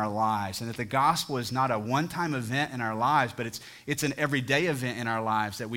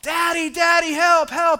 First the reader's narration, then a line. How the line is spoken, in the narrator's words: crying and he's screaming